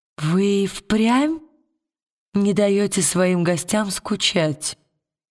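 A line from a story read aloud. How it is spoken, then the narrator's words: Sleepy mumble. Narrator (Russian): Сонно пробормотала она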